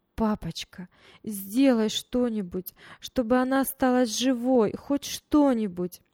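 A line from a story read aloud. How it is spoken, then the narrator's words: Loud sobbing plea. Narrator (Russian): Таня громко рыдала и просила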